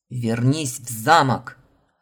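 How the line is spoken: Repetitive bark. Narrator (Russian): Рявкнул, словно у него пластинка заела

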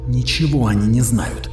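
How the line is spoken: Hissed. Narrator (Russian): прошипел Сенка

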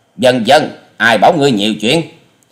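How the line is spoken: Loud angry shout. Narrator (Vietnamese): Hà Xà Tiên Tử giận dữ quát to

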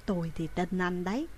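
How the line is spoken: Soft, quiet. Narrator (Vietnamese): Chị khẽ nói với Trương Cổ

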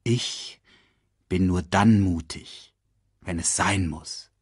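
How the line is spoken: Gentle voice. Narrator (German): sagte er sanft

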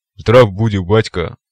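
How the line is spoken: Deep bass. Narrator (Russian): пробасил он

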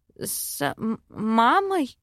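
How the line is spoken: Stammering. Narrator (Russian): заикаюсь я

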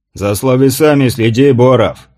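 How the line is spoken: Snapping back. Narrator (Russian): огрызнулся Гаврила

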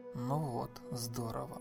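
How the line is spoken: Muttered growl. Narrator (Russian): прорычал себе под нос Джонатан

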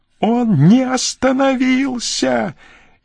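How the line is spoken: Frenzied scream. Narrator (Russian): исступленно закричала Жанна

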